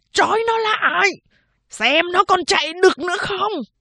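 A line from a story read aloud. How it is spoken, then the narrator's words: Distant shout. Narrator (Vietnamese): Sau nhà có tiếng người thét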